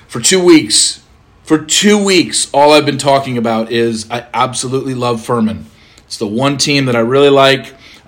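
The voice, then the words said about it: Hoarse, worn-out voice. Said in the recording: “I'm sorry if my voice is a little shot.”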